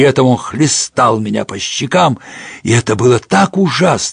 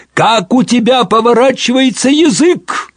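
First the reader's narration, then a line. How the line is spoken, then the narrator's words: Sudden shout. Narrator (Russian): вдруг закричал отец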